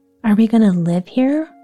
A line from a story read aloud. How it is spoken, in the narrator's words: Rosie asked in an odd tone